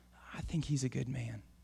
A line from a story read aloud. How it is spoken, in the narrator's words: some start to whisper